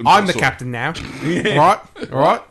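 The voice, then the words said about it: Put-on Australian accent. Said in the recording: “Sounds more Australian. ... I went a little Australian with that.”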